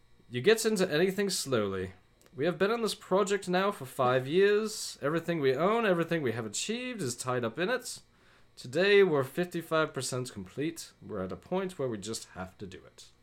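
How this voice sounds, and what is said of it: Wavering put-on British accent. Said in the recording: “I'm just going to pretend he has a British accent ... That almost turned Irish ... It was a mix of all of them ... There's a little Australian in there, too”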